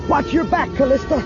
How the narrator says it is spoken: Luke yelled

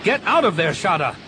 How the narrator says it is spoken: He shouted into the comm

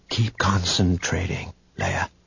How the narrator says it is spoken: Luke whispered

